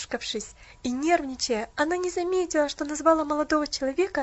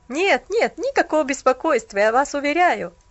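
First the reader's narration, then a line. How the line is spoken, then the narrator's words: Laughing, hiding awkwardness. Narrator (Russian): засмеялся молодой человек, стараясь скрыть неловкость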